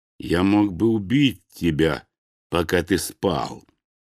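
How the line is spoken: Slow. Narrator (Russian): медленно произнес мой противник

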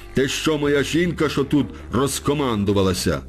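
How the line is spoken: Shouting, patience snapped. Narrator (Ukrainian): за якимсь там 12-тим зауваженням сіроманцю увірвався терпець, і він закричав

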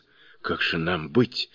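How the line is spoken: Dejected voice. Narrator (Russian): спросил он упавшим голосом

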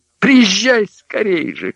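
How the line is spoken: Shouting. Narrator (Russian): кричала Магда

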